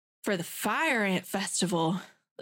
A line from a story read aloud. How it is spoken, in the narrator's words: the receptionist purred